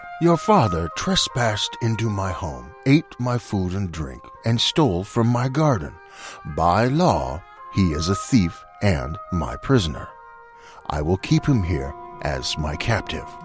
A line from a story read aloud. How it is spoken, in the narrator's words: He cleared his throat and said gruffly